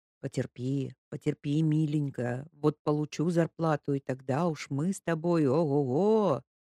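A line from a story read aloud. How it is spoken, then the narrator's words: Whisper. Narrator (Russian): Кочкин шептал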